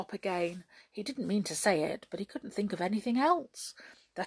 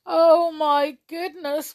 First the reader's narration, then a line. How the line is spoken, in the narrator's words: wailed Jump in a miserable voice